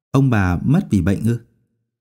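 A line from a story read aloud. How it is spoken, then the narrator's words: Old woman sighing. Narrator (Vietnamese): Bà ta thở dài nói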